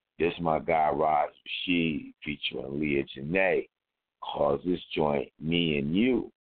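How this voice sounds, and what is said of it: Hoarse, fading voice. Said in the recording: “I'm actually starting to lose my voice right now”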